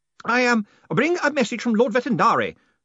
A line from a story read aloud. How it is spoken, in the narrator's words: the man shouted